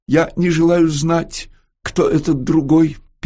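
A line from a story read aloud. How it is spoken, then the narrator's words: Interrupting tenor voice. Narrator (Russian): перебивал тенорок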